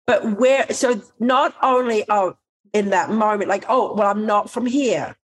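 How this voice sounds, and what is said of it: American accent with slight Australian twang. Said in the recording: “you've got an American accent. And there's a twang of being an Aussie”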